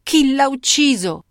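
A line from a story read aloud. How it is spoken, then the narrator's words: Shrill but steadier voice. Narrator (Italian): chiese Bardi con voce stridente, ma più ferma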